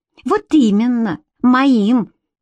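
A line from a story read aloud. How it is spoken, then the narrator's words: Spiteful shriek. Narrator (Russian): злобно взвизгнула Карделла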